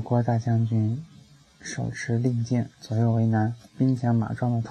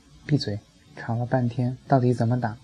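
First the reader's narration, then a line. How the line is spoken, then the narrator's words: Angry. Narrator (Chinese): 火锅大将军怒道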